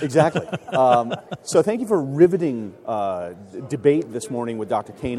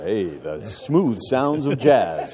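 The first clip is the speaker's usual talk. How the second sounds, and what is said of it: Smooth radio announcer voice. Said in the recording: “Get your radio voice. ... the voice that's made for radio”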